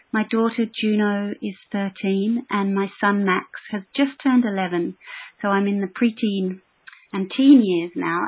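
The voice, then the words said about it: Australian accent. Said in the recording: “you may hear that I have an Australian accent”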